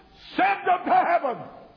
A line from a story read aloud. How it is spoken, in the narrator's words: it shouts